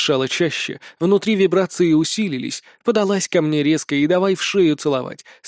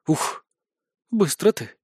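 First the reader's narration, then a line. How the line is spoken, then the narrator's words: Tender, deliberate. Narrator (Russian): выдала ласково и совершенно сознательно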